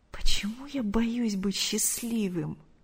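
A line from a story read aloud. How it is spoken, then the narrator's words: Terrified whisper. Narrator (Russian): с ужасом прошептал Артур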